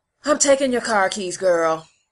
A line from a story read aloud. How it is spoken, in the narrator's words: said with a sigh